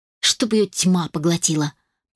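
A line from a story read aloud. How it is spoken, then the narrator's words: Muttering. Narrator (Russian): пробормотала Мелисса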